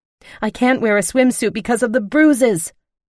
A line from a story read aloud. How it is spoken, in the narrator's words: I blurted out